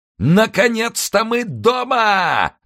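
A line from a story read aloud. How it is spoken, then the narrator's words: Yelling. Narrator (Russian): заорал босс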